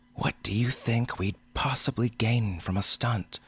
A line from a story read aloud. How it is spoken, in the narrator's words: she demanded hotly